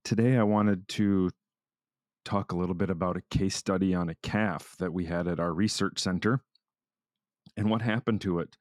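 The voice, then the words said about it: Slightly hoarse voice. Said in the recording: “my voice is a little hoarse ... come back with a cold or virus”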